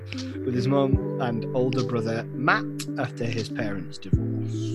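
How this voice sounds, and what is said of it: Usual voice. Nothing is said of it.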